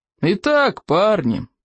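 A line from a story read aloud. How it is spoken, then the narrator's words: Booming. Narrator (Russian): прогремел плевак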